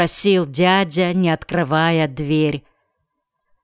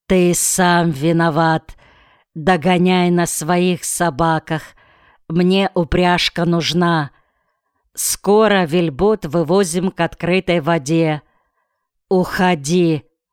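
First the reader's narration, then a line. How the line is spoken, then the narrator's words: Firm, clear voice. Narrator (Russian): твердым и ясным голосом сказал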